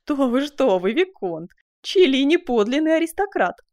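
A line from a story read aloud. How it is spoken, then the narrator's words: Laughing exclamation. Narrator (Russian): смеясь воскликнула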